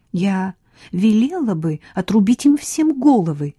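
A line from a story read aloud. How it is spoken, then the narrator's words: Heated exclamation. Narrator (Russian): горячо воскликнула Хлоя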